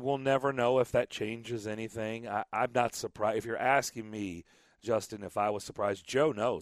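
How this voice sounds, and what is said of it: Raspy, strained voice. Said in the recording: “I apologize for my voice. I did a lot of yelling at baseball games this weekend, so I'm a little raspy. ... I barely have a voice.”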